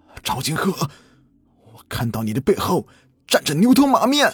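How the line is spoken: Desperate cry. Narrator (Chinese): 他满脸不甘的 绝望的喊道

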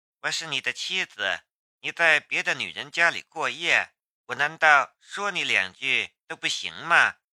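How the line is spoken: Calm, flat. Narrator (Chinese): 龙兵淡淡的道

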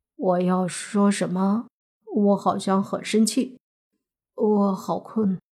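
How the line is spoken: Dazed mumble. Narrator (Chinese): 慕云逸在张口结舌中慢慢的蒙住了，嘀咕了一句

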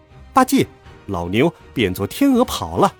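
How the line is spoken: Laughing. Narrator (Chinese): 孙悟空笑道

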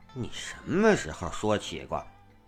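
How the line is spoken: Suspicious mutter. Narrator (Chinese): 墨子狐疑的 嘀咕

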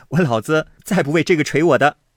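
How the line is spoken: Laughing. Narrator (Chinese): 宝玉笑道

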